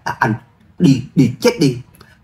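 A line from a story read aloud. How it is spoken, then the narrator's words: Loud angry shout. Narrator (Vietnamese): Hoa Phi Vũ quát lớn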